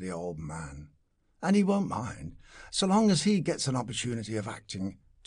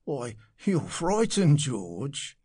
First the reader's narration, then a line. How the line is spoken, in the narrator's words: said the stout commercial with a chuckle